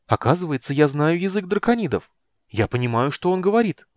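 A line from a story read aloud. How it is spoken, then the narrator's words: Excited. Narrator (Russian): взволнованно сообщила Непоседа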